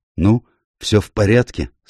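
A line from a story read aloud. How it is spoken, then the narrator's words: Hoarse question. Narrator (Russian): спросил он охрипшим голосом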